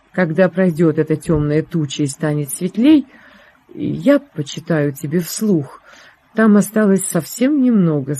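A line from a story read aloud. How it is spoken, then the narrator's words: Plain. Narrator (Russian): сказал Лессинг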